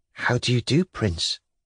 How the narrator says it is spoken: she whispered

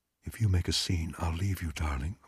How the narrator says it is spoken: Margot said quietly

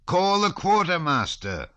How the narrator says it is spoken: he shouted to Lavrushka

